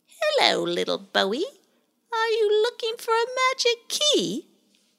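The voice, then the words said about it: Sly character voice. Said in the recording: “in a rather sly voice”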